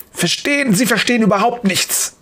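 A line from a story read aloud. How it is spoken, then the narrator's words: Hissing, angry. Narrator (German): faucht Dr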